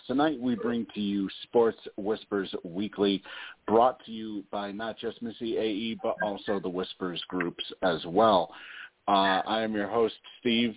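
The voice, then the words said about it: Scratchy, sore-throated voice. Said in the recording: “Depending on how my voice is, maybe we will be on for the full 3 hours tonight. Not sure. ... Kind of dealing with a bit of a scratchy throat tonight”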